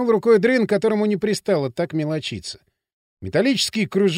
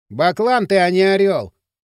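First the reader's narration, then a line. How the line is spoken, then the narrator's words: Amused snort. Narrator (Russian): хмыкнул Поршень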